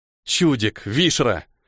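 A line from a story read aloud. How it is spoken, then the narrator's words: Speaking through teeth. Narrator (Russian): процедил Ниэль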